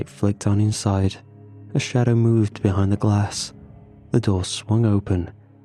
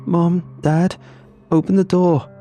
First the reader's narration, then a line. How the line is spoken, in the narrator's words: sobbing